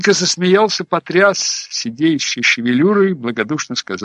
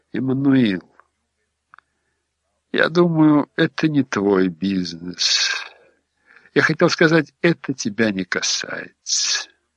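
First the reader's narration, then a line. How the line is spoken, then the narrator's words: Soft remark. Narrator (Russian): Хэнк покатал на губах ледяную улыбочку и мягко заметил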